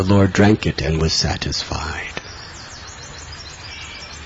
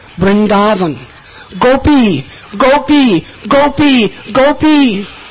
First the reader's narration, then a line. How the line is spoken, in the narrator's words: Repeatedly, time and again, he was screaming out